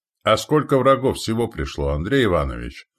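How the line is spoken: Ringing young voice. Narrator (Russian): спросил звонким голосом княжич

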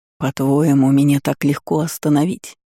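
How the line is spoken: Growling. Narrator (Russian): Ректор зарычал

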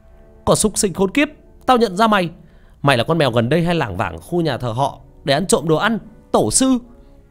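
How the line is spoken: Sudden loud shout. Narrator (Vietnamese): Một người trong đó nhận ra điều gì, đột ngột hét lớn

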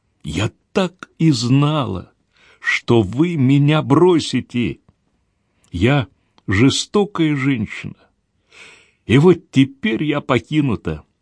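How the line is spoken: Trembling, choked exclamation. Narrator (Russian): Гвендолин задрожала и сдавленным голосом воскликнула

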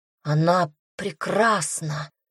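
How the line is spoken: Breathless exhale. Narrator (Russian): выдохнул младший брат

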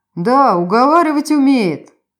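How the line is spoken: Chuckle. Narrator (Russian): хохотнул Кристиан

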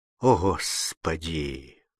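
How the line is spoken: Nauseated gasp. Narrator (Russian): выдохнул Фабель, борясь с накатом тошноты

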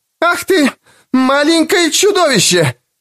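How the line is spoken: Unusually furious shout. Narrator (Russian): закричала она на Нэнси таким голосом, какого я никогда у нее не слышал

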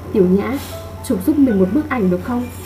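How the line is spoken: Soft. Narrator (Vietnamese): cô khẽ nói

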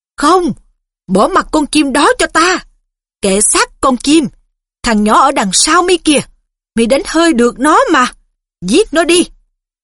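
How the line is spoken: Screaming command. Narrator (Vietnamese): Riddle thét lên

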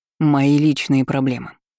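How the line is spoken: Calm, breathing heavily. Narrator (Russian): спокойно постановил Стас, тяжело дыша

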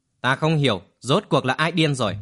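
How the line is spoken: Sudden loud laughter. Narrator (Vietnamese): Lâu Đại Chiêu bỗng nhiên cười lớn

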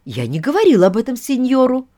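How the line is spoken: Exclaiming. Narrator (Russian): воскликнула Донна Клара

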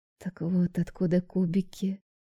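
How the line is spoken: Muttering under breath. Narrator (Russian): Бормочу себе под нос по-русски

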